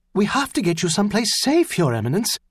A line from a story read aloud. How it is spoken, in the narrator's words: one of the under-priests said urgently